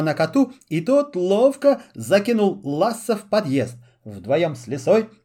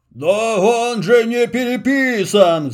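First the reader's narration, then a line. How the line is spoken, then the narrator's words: Roaring. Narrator (Russian): взревел Карабас, увидев знакомый весьма корявый почерк родственника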